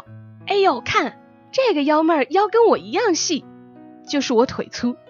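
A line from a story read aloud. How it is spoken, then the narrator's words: Shouting. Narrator (Chinese): 大叫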